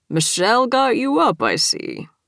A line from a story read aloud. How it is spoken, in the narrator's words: chuckled